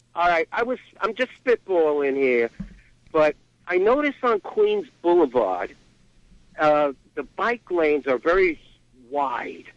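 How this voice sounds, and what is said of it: Strong regional accent. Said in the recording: “my accent”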